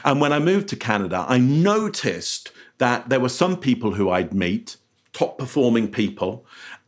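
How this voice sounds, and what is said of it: English accent. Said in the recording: “As you can hear from my voice, I'm English originally”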